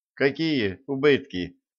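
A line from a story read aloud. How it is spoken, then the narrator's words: Gloomy grumble, young lad. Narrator (Russian): мрачно пробурчал парнишка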